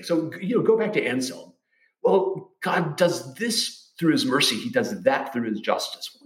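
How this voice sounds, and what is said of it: Southern Memphis accent. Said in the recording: “I am from Memphis, by the way. That's not an affectation. I realize my accent is all off”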